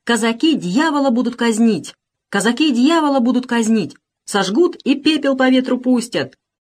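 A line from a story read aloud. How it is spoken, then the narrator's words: Shouting until voice breaks. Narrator (Russian): Кричал Макапка с такой силой, что голос себе сорвал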